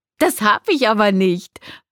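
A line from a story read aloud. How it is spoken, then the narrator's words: Laughing answer. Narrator (German): antwortete Atala lachend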